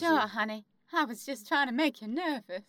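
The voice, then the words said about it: Put-on southern accent. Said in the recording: “somehow she gets a southern accent.”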